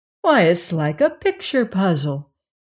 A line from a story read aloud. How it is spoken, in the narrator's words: exclaimed the little girl